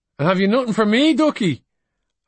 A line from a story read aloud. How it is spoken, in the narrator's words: Her husband called out to her